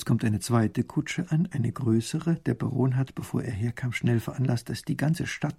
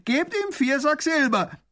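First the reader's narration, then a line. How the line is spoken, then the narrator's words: Prisoner calling out. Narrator (German): ruft der Gefangene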